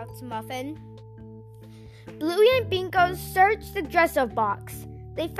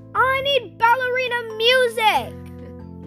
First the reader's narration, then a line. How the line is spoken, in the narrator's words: Muffin screams